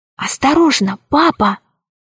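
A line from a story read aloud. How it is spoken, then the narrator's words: Fearful whisper. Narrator (Russian): прошептала она, словно боялась, что ее услышат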